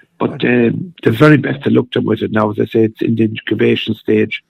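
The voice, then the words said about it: Hoarse voice. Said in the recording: “My voice is a little bit hoarse”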